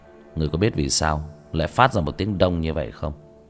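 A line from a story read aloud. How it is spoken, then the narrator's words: Cold sneering laugh. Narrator (Vietnamese): Tiểu Thất cười nhạt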